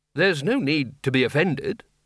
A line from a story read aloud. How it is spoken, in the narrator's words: said Ridcully